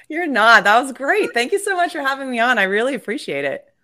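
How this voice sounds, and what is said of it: Australian accent. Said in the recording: “I'm originally from Australia, though. You can probably tell about the accent a little bit. ... It's the O. ... The no.”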